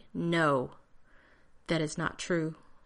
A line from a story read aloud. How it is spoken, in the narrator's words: John said tightly